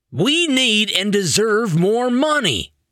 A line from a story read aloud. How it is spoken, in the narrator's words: Elastoman hollered